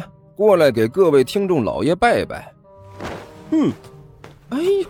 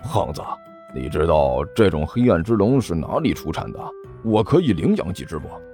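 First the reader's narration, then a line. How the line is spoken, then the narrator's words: Muttering to himself. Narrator (Chinese): 尼采喃喃自语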